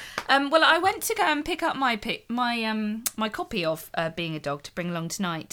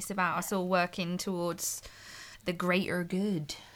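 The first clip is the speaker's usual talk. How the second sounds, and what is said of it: Accent copied from Hot Fuzz. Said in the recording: “I can't say it without 100%. That accent because of Hot Fuzz. In Hot Fuzz, they're all about it.”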